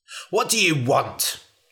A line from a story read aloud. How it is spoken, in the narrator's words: snapped the man